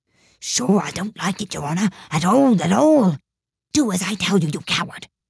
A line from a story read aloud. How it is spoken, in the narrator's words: whispers